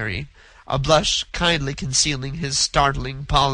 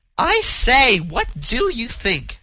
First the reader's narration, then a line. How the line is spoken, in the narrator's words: cried a girl's voice